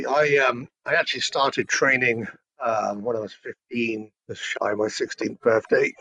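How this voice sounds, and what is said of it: British accent. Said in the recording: “you definitely have a British accent”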